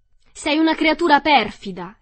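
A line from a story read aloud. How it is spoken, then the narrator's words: Yelled. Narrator (Italian): le urlò Dorothy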